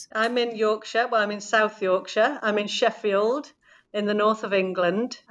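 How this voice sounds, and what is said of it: Northern English Yorkshire accent. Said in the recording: “I'm really enjoying your accent”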